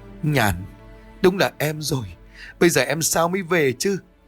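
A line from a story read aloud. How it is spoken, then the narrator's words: Crying, calling out. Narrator (Vietnamese): khóc lóc lên gọi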